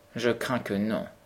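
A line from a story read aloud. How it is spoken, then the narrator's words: Murmur. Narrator (French): murmura le comte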